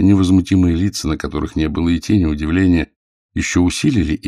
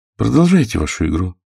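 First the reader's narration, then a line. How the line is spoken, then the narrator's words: Calm. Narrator (Russian): спокойно сказал Конфалоньери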